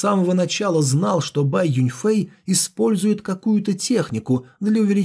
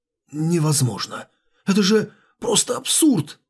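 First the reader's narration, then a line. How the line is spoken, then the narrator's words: Disbelieving mutter. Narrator (Russian): неверящим тоном пробормотал король духа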